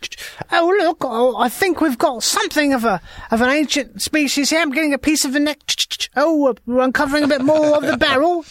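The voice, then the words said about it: Impression of a friend. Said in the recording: “my impression of Randy”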